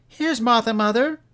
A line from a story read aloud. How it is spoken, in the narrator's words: cried the two young Cratchits